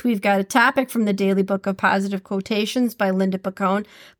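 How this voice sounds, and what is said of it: Midwestern Minnesotan accent. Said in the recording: “did that sound really Midwest or what? ... my dialect continues to change to become more and more Minnesotan”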